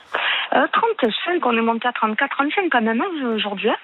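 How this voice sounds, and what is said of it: Slight southern French accent. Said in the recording (French): “Vous avez un petit accent du Sud”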